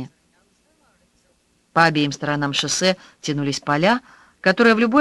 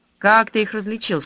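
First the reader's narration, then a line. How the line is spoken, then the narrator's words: Plain question. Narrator (Russian): спросила Аня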